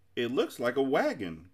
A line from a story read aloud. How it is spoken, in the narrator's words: cried Milo excitedly